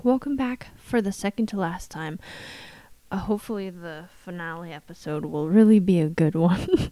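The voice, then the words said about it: Scratchy, strained hoarse voice. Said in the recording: “losing my voice, screaming at little Pathfinders. That's why I have this interesting, scratchy voice”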